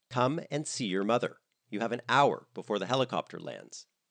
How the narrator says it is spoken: said Virginia in a more commanding tone

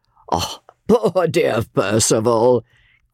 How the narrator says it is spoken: cried Count Fosco, looking after him gaily

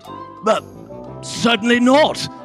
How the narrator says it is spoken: shouted Mr

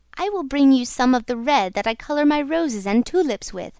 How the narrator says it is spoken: cried the Red Ryl

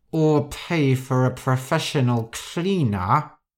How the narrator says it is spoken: Rosa said through gritted teeth

